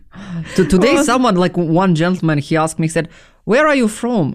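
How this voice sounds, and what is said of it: Foreign accent in English. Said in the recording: “you can hear my accent. He said, yeah, you definitely have accent.”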